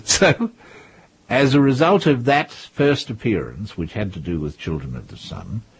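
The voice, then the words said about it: Australian accent. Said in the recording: “that strange Australian accent of yours”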